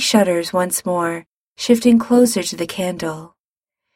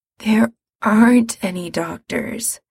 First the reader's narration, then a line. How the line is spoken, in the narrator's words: Mikey says wearily